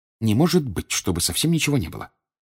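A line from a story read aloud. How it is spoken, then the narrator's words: Muttered. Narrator (Russian): пробормотала Гермиона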